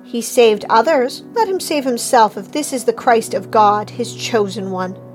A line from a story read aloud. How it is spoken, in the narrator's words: the rulers were sneering at him, saying